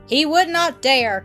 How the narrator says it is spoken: cried Nell

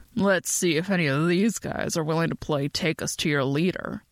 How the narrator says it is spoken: Ben rumbled

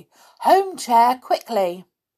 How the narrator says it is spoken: Peter cried out loudly

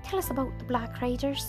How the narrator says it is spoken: interrupted Pippin eagerly

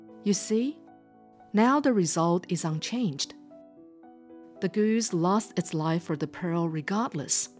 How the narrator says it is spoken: Yating said

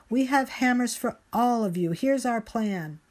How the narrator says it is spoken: She shouts over the roar

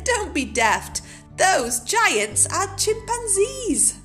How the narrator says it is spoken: Day Monkey laughed and said

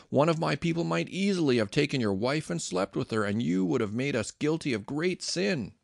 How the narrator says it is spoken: Abimelech exclaimed

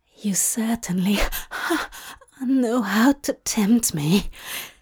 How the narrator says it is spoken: Aziraphale gasped

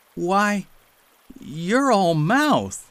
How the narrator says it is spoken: he exclaimed

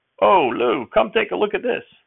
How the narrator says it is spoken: Nutting hollered

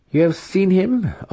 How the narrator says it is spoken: Alton asked, his fingers tapping anxiously

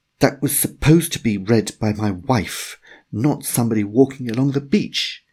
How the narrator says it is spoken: Cuthbert exclaimed with another shiver

